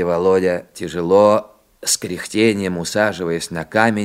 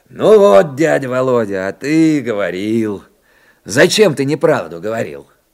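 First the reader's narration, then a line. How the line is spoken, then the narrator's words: Cheerful loud exclamation. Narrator (Russian): Митяй весело и громко возгласил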